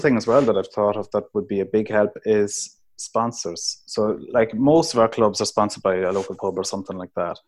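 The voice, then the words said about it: Irish accent from Cavan. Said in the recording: “recognize your accent, that you're from Cavan”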